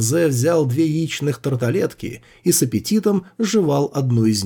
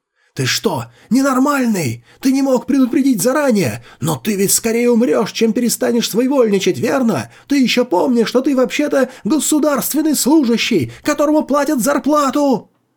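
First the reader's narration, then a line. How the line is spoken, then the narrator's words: Full-lung yelling. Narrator (Russian): Директор Сяо заорал во всю мощь своих легких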